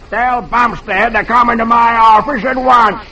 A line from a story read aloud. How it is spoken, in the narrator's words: he roars